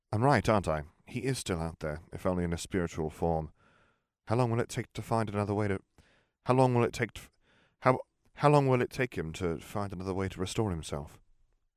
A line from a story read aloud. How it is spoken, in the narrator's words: Dumbledore sighed tiredly